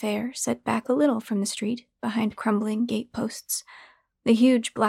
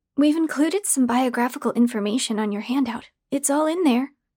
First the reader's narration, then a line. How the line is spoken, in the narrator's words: Jillian said brightly